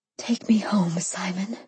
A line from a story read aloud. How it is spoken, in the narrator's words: I whispered